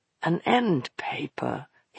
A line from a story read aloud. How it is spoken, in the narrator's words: he murmured